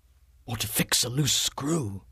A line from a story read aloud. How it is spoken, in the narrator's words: Phillips whispered